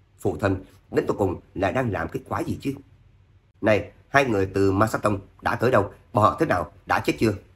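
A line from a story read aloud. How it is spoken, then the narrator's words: Stunned disbelieving mutter. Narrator (Vietnamese): Tuyển Thế Vũ không thể tưởng tượng nổi, lẩm bẩm lên tiếng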